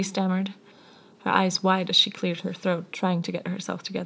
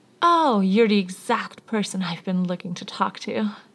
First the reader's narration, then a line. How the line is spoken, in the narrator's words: Harry exclaimed happily